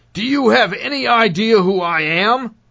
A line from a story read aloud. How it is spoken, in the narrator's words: He asked loudly so that passengers behind him could hear